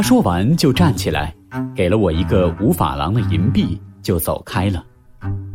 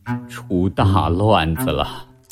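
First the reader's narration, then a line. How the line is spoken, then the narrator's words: Flustered low mutter. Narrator (Chinese): 父亲神色很狼狈，低声嘟囔着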